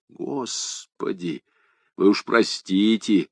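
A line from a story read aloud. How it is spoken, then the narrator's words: Hoarse. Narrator (Russian): хрипло сказал Гарри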